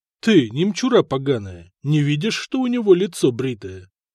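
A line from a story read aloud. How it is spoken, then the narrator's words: Mock-gentle question. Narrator (Russian): Ласково спросили они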